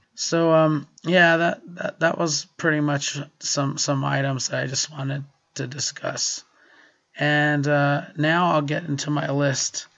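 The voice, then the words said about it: Weak, hoarse voice from illness. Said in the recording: “I apologize for my voice, and I don't know when it'll return ... I was so sick this past week ... My nose started running ... I have no voice”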